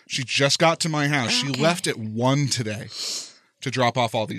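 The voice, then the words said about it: Out of breath. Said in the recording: “That's why I'm out of breath. It's been a lot of up and down the stairs.”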